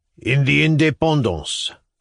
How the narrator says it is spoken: growled the tall fellow

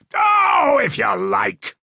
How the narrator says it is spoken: he roared

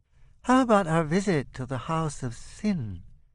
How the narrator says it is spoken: Otto Bambus asks, sidling up timidly

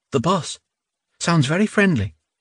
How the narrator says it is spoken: she whispered

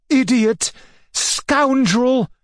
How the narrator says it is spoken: shrieked Maria Alexandrovna

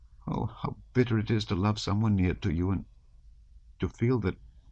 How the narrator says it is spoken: she went on in a trembling voice

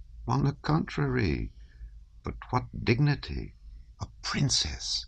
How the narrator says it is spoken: he whispered to her

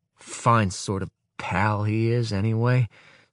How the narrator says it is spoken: says Valentin at last, sullenly

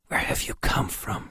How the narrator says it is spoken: whispered

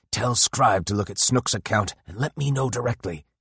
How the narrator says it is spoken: he whispered

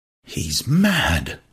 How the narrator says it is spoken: whispered Bernard

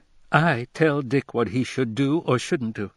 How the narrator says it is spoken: exclaimed in amazement

